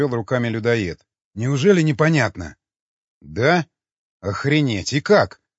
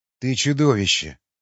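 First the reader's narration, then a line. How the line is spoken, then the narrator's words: Weary sigh. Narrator (Russian): устало вздохнул Васнецов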